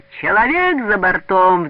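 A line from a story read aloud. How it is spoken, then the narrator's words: Sudden desperate yelling. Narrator (Russian): вдруг отчаянно орал он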